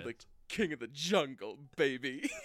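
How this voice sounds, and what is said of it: Austin Powers style character voice. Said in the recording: “It's got a little Austin Powers to it.”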